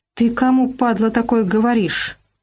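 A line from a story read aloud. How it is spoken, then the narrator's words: Growling. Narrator (Russian): прорычал Гаврош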